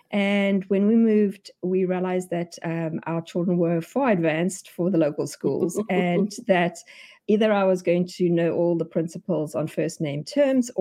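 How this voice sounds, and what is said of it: South African accent. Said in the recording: “you can hear from my accent, I am not American... I come from South Africa”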